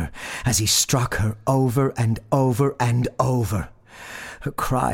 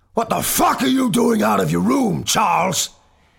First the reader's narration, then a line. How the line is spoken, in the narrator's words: father roared